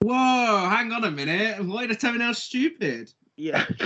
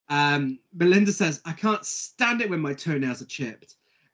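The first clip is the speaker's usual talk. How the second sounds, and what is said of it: Exaggerated posh British accent. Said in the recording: “giving him a Downton Abbey accent? ... I only do super British or Mae West.”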